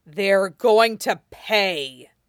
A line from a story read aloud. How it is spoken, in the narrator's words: he snarls